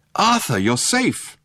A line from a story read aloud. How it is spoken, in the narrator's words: a voice cried